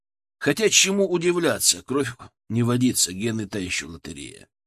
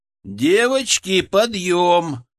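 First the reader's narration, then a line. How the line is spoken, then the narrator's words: Loud announcement. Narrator (Russian): громко объявил я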